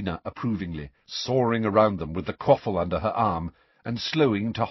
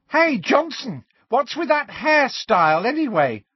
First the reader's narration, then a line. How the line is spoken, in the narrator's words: shrieked Pansy Parkinson from below